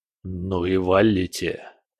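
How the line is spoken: Hissed. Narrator (Russian): прошипел Бобшильд

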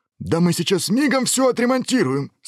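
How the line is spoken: Enthusiastic shout. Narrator (Russian): с энтузиазмом крикнул дракон

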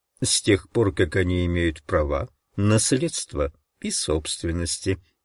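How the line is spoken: Plain. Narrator (Russian): ответил адвокат

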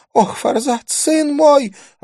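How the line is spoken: Sobbing. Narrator (Russian): она всхлипнула

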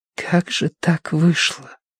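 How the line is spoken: Whisper. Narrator (Russian): прошептала Киеврин

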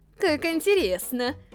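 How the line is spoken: Giggling. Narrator (Russian): хихикнула она

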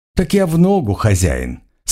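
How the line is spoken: Calm reply. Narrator (Russian): спокойно ответила Лия

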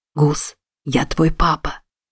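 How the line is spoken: Loud whisper. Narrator (Russian): произнес Чарльз громким шепотом

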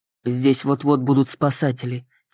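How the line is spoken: Quiet. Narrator (Russian): тихо сказал Кристиан

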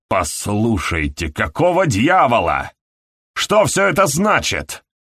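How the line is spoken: Angry question. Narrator (Russian): сердито спросил Хэдли

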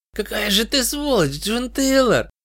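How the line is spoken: Hoarse then giggling. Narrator (Russian): прохрипел мертвец, но не удержался и глупо захихикал

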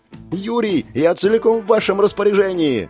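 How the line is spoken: Shouted. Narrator (Russian): прокричала Клэр

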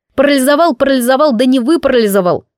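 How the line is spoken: Smirking, borrowed voice. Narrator (Russian): хмыкнул Гриф с моим голосом

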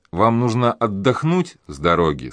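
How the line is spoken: Plain. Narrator (Russian): сказала она

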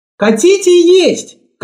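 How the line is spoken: Shout. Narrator (Russian): крикнула

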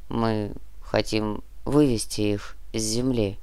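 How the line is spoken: Giant's muffled voice. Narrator (Russian): глухо закончил гигант

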